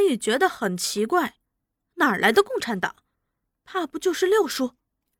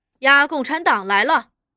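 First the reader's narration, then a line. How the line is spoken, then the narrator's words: Shouting. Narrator (Chinese): 有人叫着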